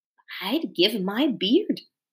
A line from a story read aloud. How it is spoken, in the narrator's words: whispered Poggin